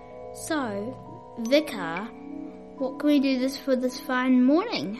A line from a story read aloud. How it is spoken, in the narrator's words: asked Dad